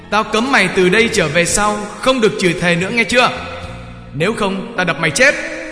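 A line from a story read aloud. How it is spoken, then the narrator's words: Angry cursing shout. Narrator (Vietnamese): Ông bố chửi thề và quát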